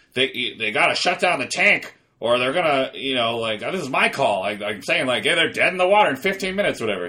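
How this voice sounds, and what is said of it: Clint Howard impression. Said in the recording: “pretty good Clint Howard impression”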